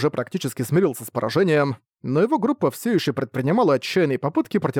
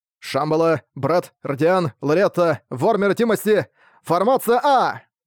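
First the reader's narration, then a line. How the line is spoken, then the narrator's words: Shouted command. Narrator (Russian): Прокричав команду, Арк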